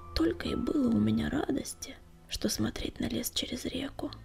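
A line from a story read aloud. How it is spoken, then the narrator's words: Whispered. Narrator (Russian): прошептал Крутобок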